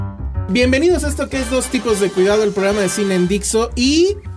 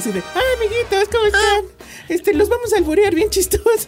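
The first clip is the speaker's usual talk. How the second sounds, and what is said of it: Imitation of Huevo Cartoons voices. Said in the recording (Spanish): “su mejor imitación de los huevo cartoons”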